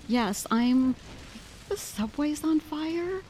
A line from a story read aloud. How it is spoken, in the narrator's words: Gasping